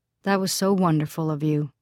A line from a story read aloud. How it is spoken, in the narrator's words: Lisi had told him warmly